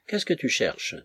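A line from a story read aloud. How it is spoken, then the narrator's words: Cheerful, delighted question. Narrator (French): demanda l'un des soldats d'une voix gaie, réjouie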